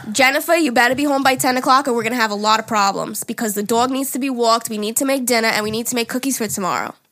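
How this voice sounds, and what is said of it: Exaggerated heavy Long Island accent. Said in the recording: “heavy Long Island accent ... Kind of like Italian almost ... super Long Island ... That's Long Island.”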